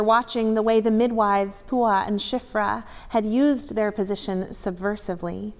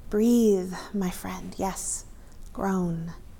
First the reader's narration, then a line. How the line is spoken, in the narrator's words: murmured